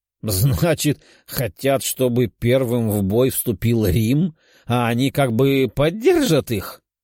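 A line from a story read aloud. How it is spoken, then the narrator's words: Loud laughter. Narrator (Russian): расхохотался император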